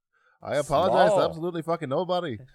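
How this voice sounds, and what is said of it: Put-on Irish accent, upward inflection. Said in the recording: “We're always going to talk in an upward inflection, just like this ... Irish accent”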